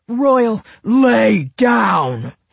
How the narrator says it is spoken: snarled, his voice booming

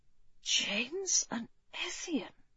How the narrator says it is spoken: he whispered

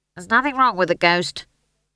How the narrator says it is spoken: snapped Howell

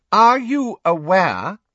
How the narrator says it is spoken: Umbridge said loudly, interrupting him

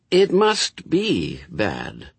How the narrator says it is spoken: reasoned Aziraphale, in the slightly concerned tones of one who can't see it either and is worrying about it

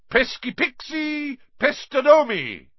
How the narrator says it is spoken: bellowed

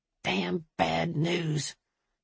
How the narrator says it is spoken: he muttered

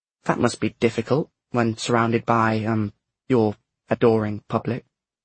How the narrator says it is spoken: said James

